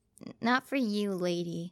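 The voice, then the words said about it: Speaks in a character voice. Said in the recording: “I said it in my character voice”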